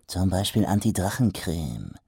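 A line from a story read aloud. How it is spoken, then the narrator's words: Quiet hiss. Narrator (German): zischte er leise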